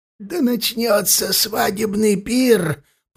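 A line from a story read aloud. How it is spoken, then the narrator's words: Hoarse rasp. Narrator (Russian): прохрипел он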